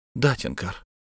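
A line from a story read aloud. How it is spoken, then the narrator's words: Quiet. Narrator (Russian): тихо сказала она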